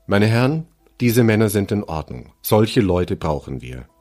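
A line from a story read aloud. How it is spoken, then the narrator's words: Calm, highly satisfied. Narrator (German): sagte dann, offenbar hoch befriedigt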